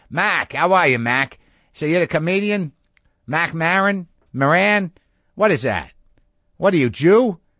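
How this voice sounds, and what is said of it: Boston accent impression. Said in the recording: “succinct about that accent ... I was going to Boston to work ... so I heard every variation of that ... every variation I heard of that accent”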